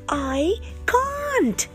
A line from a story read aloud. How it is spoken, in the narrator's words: shouted Annika